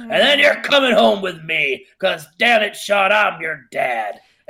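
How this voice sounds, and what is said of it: Impression of Chet. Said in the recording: “my Chet impression is pretty spectacular ... very good”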